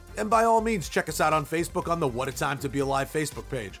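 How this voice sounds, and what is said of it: New York accent. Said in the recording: “my shitty New York accent ... my crappy New York accent”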